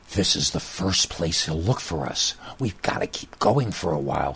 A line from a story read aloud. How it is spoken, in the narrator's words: stage whispered in between gasping for air and running